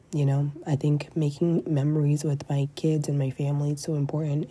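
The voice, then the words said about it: Raspy, hoarse voice. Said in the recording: “my voice sounds kind of uh, raspy and out there”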